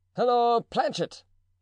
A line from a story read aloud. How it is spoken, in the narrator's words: cried the Gascon from the door